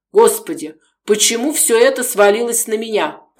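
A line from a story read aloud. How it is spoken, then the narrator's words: Groaning. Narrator (Russian): простонал он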